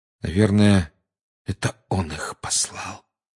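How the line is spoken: Quiet. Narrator (Russian): тихо сказал Гарри

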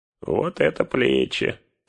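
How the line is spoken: Grumbling. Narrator (Russian): проворчал он

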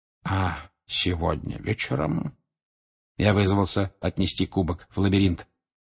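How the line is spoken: Whisper. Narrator (Russian): прошептал Барти Крауч

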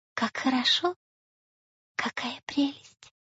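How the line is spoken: Delighted whisper. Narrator (Russian): прошептала Майя

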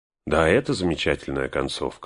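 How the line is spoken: Agreeing. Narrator (Russian): согласился Фродо

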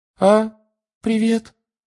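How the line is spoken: Unusually high voice. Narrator (Russian): сказал непривычно высоким голосом

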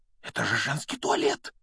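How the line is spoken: Breathless exclamation. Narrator (Russian): выдохнул Гарри

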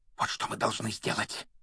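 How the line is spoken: Fervent whisper. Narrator (Russian): горячо прошептал он

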